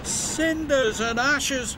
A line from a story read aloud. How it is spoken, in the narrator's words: cried Thomas